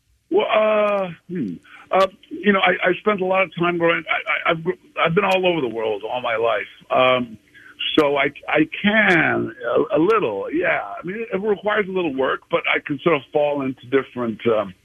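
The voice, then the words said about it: Hybrid, odd mixed accent. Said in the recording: “I've got a really weird, sort of hybrid, odd accent”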